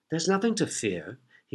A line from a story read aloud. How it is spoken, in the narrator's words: said softly